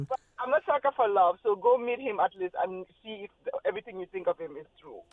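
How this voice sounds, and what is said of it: West African accent. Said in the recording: “Tell us about your accent. ... I love it. ... I'm from West Africa, Gambia.”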